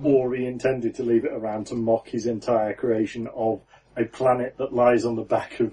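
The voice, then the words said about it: Northern English accent. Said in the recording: “my actual accent ... it's grim up north ... my accent goes stronger when I'm around more people who speak in my accent ... an almost Grimsby accent ... Exponential northness”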